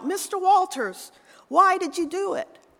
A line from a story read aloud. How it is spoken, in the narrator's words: a television reporter called out